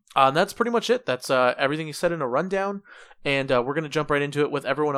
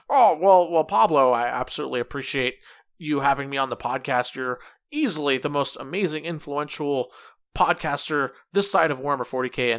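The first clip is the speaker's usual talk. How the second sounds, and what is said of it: Imitates another person's voice. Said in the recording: “my best Chase impression”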